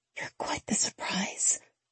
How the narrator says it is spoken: I whisper

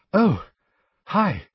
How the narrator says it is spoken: she said breathlessly

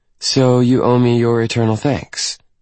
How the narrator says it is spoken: She asks, her tone now pure sass

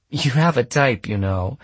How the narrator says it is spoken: she'd said, laughing

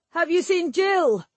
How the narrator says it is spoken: Rodri yelled at them

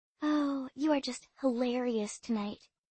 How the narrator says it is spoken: I whispered

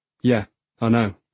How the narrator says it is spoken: he says

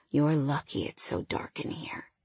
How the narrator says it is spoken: he whispered

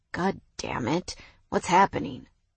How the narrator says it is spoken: He muttered

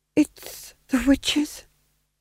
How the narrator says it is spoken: whispered the Duke, to no one in particular

